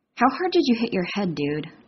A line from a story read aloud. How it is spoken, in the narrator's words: Sam mutters